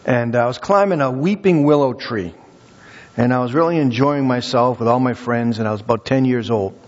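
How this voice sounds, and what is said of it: Massachusetts accent. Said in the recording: “I grew up in Massachusetts, if you haven't, you know, picked up on the accent yet.”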